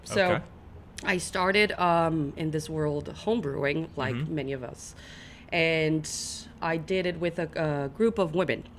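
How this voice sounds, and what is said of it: Brazilian accent. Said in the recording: “I am from Brazil, hence the accent.”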